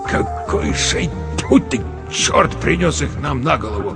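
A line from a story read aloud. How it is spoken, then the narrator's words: Muttering. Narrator (Russian): пробормотал Верещагин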